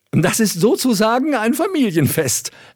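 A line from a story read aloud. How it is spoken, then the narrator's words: Laughing young woman. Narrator (German): lachte das Burgfräulein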